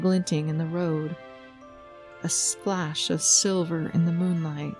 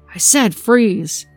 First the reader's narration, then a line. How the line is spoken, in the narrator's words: shouted the man at my back